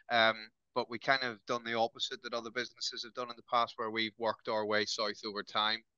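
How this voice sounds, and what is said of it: Irish accent. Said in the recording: “Don't let the accent throw you. I am Irish by heritage, but I've lived in Newcastle longer than I lived in Northern Ireland.”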